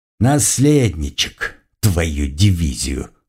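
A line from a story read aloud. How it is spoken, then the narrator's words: Scoffing grunt. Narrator (Russian): хмыкнул я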